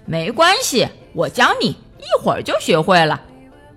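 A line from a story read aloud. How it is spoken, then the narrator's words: Laughing. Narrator (Chinese): 瑞奇笑着说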